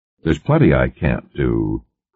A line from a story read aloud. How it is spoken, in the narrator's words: Cartwright disagreed dryly